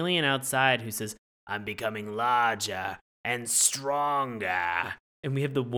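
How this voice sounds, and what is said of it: Usual voice. Nothing is said of it.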